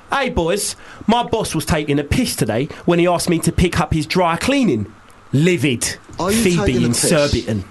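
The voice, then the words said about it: Put-on Cockney accent. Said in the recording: “can either of you guys do a good Cockney accent? ... I think mine's all right. ... We'd like to do it in a Cockney accent ... You guys are quite good.”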